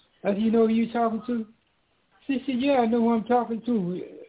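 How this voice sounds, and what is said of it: Southern American accent. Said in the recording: “your country voice ... I didn't lose my southern voice, my southern accent. I still have it now”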